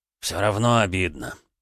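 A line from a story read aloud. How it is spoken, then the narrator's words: Sighing. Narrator (Russian): вздохнул Тимоха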